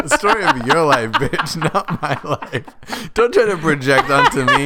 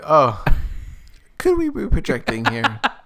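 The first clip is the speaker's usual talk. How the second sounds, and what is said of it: Imitates a therapist's voice. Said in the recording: “I sound like my therapist right now.”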